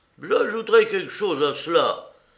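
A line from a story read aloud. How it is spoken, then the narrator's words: Old sailor exclaiming. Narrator (French): s'écria le vieux marin atteint d'acajou, le nommé Morgan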